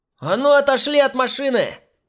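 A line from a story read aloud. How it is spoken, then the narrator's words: Yelling. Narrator (Russian): Заорала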